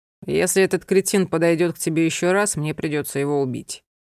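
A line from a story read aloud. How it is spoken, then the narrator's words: Calm. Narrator (Russian): спокойно произнес Анхель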